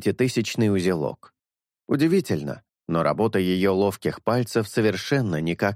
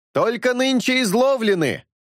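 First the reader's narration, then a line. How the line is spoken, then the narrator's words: Several voices yelling. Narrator (Russian): завопили с полдюжины голосов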